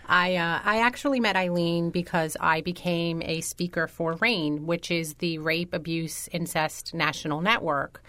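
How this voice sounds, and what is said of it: Non-local regional accent. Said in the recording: “I know you're not initially or originally from this area ... You couldn't tell from this accent?”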